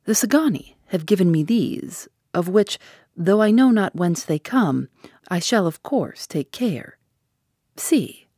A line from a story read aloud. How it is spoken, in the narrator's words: He said in his smoothest voice